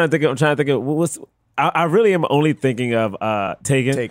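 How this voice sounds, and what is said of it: Usual voice. Nothing is said of it.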